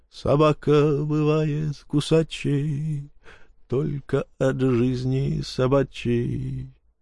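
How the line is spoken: Drawl. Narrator (Russian): протянул напалм

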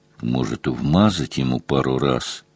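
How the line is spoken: Whispered question. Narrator (Russian): шепотом спросил Мазур

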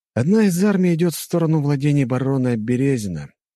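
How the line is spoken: Sighed. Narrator (Russian): вздохнул я

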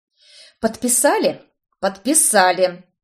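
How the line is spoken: Supplier growling. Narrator (Russian): рычал поставщик

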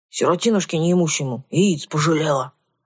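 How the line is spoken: Grumbled. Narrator (Russian): буркнул он

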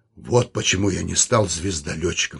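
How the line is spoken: Slightly hoarse. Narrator (Russian): сказал он немного хрипло

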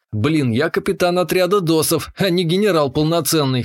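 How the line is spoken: Snorting. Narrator (Russian): хмыкнул я

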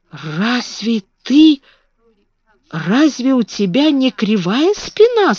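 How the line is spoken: Hoarse. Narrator (Russian): сказал он хрипло

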